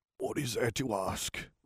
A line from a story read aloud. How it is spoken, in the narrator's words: He said in a rasping voice